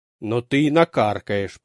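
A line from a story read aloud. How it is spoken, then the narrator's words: Grumbling. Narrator (Russian): проворчал лейтенант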